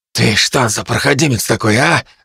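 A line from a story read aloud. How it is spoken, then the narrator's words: Butcher's hoarse rasp. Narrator (Russian): захрипел мясник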